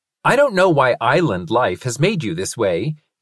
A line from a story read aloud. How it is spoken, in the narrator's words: he said loudly as he pushed himself up from the ground